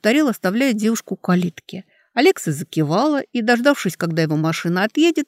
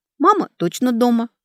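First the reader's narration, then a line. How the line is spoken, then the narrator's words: Plain. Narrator (Russian): ответила Алекса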